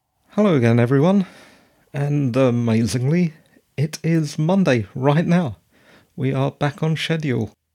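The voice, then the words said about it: Slightly hoarse voice. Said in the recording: “As you can probably hear, I'm a little hoarse”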